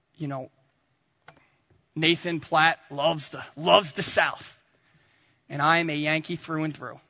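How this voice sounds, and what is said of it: New Jersey accent. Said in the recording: “I got my Jersey accent”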